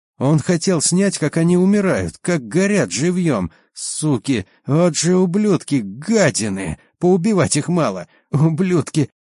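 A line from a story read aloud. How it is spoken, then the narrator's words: Breaking voice, hoarse with anger. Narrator (Russian): Его срывающийся голос начал хрипеть от злости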